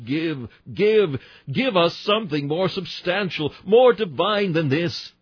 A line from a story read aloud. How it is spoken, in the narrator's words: Still our hunger cried like the horse-leech